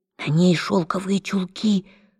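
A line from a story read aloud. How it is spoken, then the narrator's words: Whispered. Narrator (Russian): шепнула Джесси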